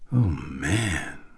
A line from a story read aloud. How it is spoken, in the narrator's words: Chris breathed